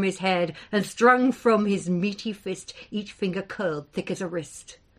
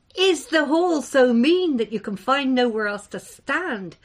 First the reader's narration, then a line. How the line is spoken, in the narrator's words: mocked Dothluck, Beetletongue, refusing to be daunted